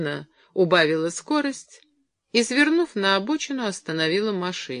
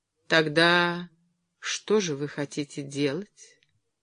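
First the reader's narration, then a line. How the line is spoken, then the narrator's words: Tender female question. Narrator (Russian): спросила она нежно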